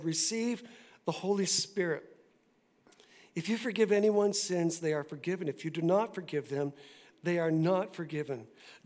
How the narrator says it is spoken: breathed on them and said

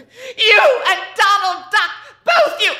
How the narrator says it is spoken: She screamed after him

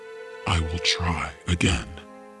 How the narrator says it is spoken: he whispered

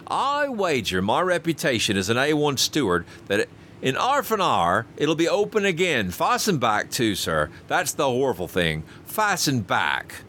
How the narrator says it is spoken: continued Robert triumphantly

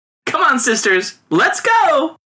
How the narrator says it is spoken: cried one among them

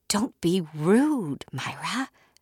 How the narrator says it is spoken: whispered, just as stunned as she was to see them

